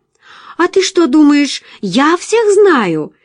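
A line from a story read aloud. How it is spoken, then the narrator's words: Cheerful question. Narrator (Russian): весело спросила Джулия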